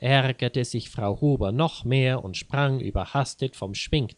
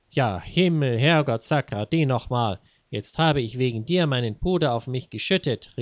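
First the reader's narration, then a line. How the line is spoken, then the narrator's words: Angry shout. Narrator (German): rief sie erbost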